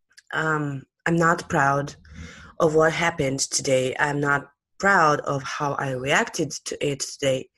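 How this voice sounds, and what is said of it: Sick voice from a cold. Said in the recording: “forgive my voice for today because I've caught another cold. I do have fever”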